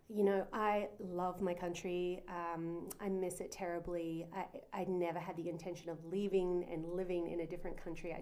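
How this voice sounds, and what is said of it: Australian accent. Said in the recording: “born and raised in Australia. Our listeners are going to hear this beautiful Aussie accent.”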